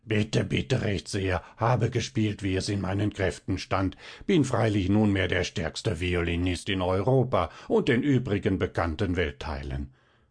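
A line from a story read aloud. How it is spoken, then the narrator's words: Small man's rasping, repulsive voice. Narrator (German): ein drei Spannen hoher, verwachsener Kerl und schnarrt mit widriger Stimme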